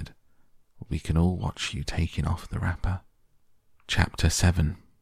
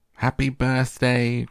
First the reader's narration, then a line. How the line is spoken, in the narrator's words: cried the four old grandparents